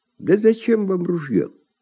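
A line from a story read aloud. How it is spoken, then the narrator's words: Sad sigh. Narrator (Russian): вздыхает Семен, печально покачивая головой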